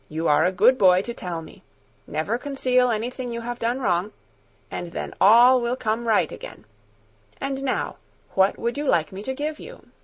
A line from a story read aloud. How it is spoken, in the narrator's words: answered kindly